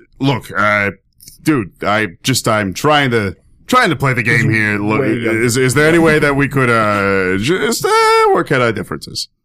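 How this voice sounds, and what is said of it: Put-on Brooklyn accent. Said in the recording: “this time by, just some newbie from Brooklyn”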